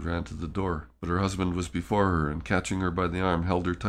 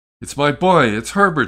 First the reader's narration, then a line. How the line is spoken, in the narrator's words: she cried